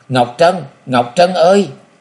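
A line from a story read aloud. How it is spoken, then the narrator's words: Sudden loud cry. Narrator (Vietnamese): Đột nhiên chàng gào to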